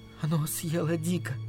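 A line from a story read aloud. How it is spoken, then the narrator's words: Whisper. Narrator (Russian): прошептала она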